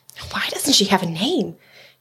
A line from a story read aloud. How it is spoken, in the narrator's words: she heard someone whisper